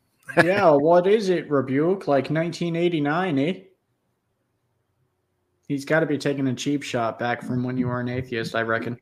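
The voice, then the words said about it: Put-on Canadian accent. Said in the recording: “Is that a Canadian accent I heard there at the end? ... That was a Canadian accent.”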